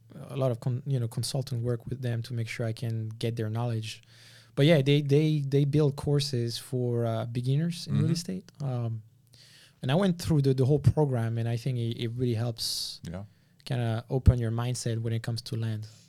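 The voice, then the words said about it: Speaks with a noticeable accent. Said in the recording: “I just have to fix my accent a little bit.”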